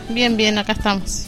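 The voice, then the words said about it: Polished radio announcer voice. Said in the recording (Spanish): “Pero qué voz de locutora... Parece para conducir un programa de media tarde, así, impecable... tenés voz de locutora”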